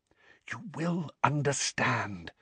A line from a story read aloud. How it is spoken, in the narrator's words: whispered Dumbledore